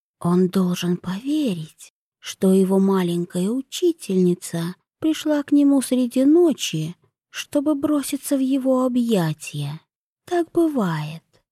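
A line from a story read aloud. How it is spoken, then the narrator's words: Whispered snort. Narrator (Russian): шепот хмыкнул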